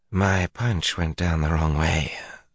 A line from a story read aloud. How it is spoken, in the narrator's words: the man said in a soft, slurring accent Matt did not recognize